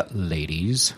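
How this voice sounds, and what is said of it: Seductive disc jockey voice. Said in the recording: “trying to be seductive ... Got my new disc jockey voice.”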